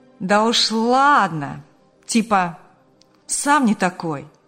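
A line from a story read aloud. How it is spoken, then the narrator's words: Cheeky drawl. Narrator (Russian): Развязно протянул товарищ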